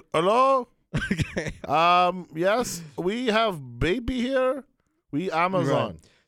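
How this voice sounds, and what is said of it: Put-on Indian-sounding accent. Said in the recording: “my Amazon accent for some reason sounded Indian ... It sounded Indian ... Apparently, I only can do one accent.”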